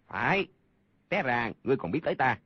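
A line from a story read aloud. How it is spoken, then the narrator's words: Angry. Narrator (Vietnamese): Người kia giận dữ nói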